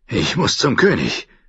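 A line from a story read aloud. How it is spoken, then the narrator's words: Panting. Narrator (German): keuchte er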